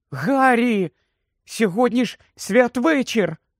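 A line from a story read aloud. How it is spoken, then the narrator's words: Exclamation. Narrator (Ukrainian): вигукнула Герміона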